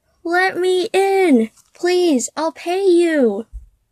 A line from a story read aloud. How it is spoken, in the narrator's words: His words were muffled, but he could hear him yell